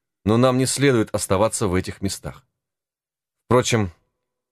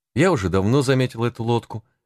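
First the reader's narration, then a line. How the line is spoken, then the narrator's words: Calm, unworried reply. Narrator (Russian): отвечала Гетти спокойно, так как гуроны не внушали ей никаких опасений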